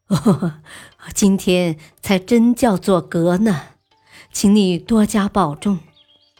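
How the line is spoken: Laughing, warm. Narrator (Chinese): 皇帝笑道

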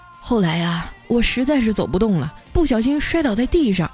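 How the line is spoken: Sighing. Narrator (Chinese): 我妈叹了口气啊，说

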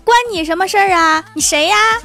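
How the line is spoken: Angry shout. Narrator (Chinese): 兽当时就火了，喊了一句

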